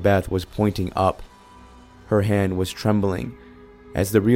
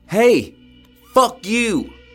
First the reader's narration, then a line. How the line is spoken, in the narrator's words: Kevin screaming at the top of his lungs